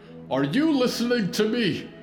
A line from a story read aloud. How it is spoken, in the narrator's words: Jonah shouted